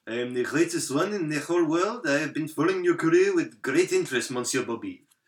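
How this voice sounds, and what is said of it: Exaggerated French accent, mumbled. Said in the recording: “I can't understand a word you said the whole time. ... You sound like a dog with peanut butter on the roof of your mouth. ... my accent, my friend. I am French.”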